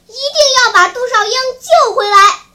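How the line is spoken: Shouting outdoors. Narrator (Chinese): 在院子里喊叫着

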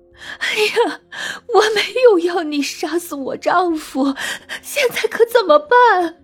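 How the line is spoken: Wide-eyed alarm. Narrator (Chinese): 三郎瞪着眼说

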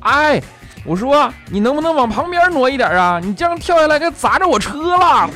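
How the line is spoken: Loud upward shout. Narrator (Chinese): 那人大声冲着楼上喊说

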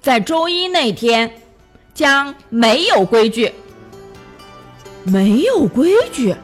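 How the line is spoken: Loud, cheerful announcement. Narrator (Chinese): 戴维露出灿烂的微笑，用响亮的声音向大家宣布

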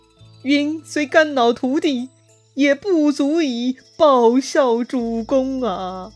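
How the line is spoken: Tearful. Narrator (Chinese): 赵云哭着叩拜刘备

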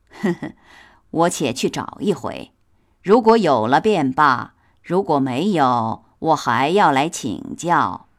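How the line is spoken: Laughing. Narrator (Chinese): 来人听了，笑道

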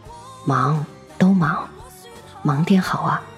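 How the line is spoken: Murmuring. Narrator (Chinese): 喃喃道

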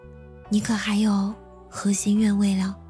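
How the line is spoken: Soft, tender voice. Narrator (Chinese): 女子声音微软

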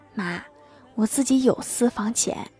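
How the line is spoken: Moved, quiet voice. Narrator (Chinese): 郭大侠非常感动，小声的说道

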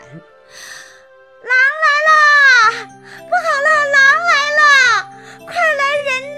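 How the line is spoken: Child shouting. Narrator (Chinese): 村里的人又听见那放羊的孩子在喊

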